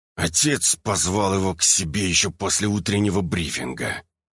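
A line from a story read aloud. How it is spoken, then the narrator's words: Hiss. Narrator (Russian): прошипел первый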